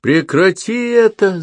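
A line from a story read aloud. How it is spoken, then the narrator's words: Yelling. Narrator (Russian): заорал Том на друга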